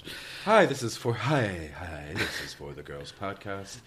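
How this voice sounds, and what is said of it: Put-on radio voice. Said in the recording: “This is my radio voice. This is how I pick up guys' voice.”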